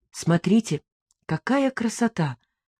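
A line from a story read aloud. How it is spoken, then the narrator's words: Quiet call. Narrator (Russian): позвал негромко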